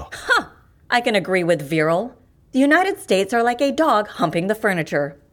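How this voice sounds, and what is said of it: American accent. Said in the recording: “You're American, aren't you? ... By accent, not by heart.”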